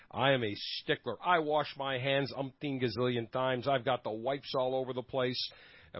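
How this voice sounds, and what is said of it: Nasal, congested voice. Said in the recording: “as you can tell from my voice, my normal dulcet tones are a little bit on the nasally side as I have had a terrible upper respiratory infection”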